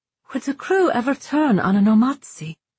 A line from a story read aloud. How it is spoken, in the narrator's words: The boy answered in a decidedly female voice